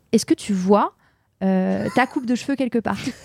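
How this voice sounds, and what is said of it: Imitated American accent speaking French. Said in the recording (French): “ma boss, donc, qui était une ricaine de la côte ouest ... avec son accent”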